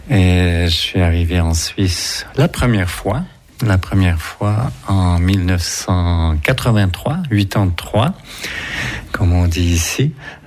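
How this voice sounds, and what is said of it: Québécois French accent. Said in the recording (French): “ça va peut-être s'entendre à l'accent, donc je viens du Canada, je viens du Québec”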